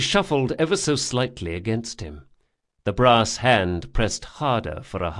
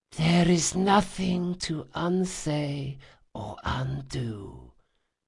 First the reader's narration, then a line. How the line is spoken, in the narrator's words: she replied faintly